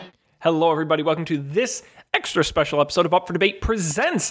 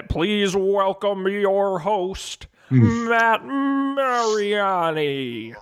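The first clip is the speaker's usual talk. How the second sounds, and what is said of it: Poor impression of announcer voice. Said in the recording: “my horrible Don Pardo impression ... It's garbage”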